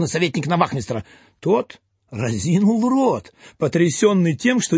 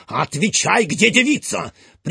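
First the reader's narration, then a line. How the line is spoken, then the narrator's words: Stern shout. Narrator (Russian): прикрикнул на служивого Фондорин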